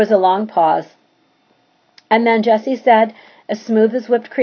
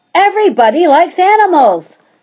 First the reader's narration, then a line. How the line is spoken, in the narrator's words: shouted